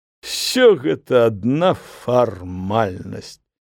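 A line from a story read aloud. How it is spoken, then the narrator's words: Guffaw, then speech. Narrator (Belarusian): Айцец Владзімір зарагатаў, а потым дадаў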